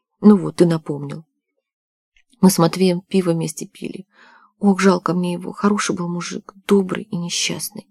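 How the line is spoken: Tearful mumble. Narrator (Russian): У Нади глаза сразу на мокром месте, она пробормотала

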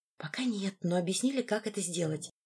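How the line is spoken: Whispered reply. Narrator (Russian): прошептала я в ответ

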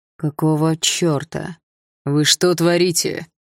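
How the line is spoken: Through gritted teeth. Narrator (Russian): Сквозь зубы процедил Руслан

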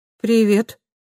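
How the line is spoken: Hesitant. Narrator (Russian): неуверенно сказала она

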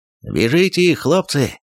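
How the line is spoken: Ringing thunderous Cossack voice. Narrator (Russian): прогремел звонкий казачий голос

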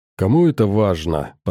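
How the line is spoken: Grumbling. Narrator (Russian): проворчала она

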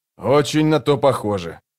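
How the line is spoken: Grumbled. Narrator (Russian): проворчал он

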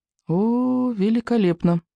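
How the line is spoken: Muttered. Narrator (Russian): пробормотал Икинг

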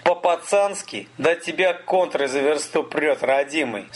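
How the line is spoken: Laughing. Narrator (Russian): Столяров засмеялся

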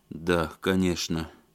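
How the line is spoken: Dejected voice. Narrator (Russian): упавшим голосом сказал Алексей

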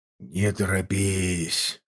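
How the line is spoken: Whisper. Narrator (Russian): прошептал Варлыга

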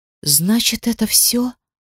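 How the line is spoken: Whisper. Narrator (Russian): прошептала она

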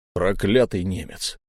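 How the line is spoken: Grumbling. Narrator (Russian): проворчал он

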